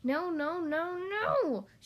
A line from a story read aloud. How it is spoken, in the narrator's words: she sputtered and yowled